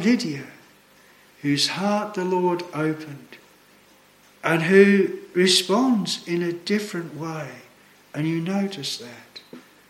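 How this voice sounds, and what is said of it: Australian accent. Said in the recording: “Sometimes they'll pick my accent. They'll say, oh, where do you come from? I say, Australia.”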